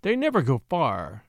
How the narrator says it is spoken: he said with a chuckle

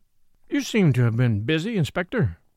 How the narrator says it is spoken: Thorndyke remarked dryly

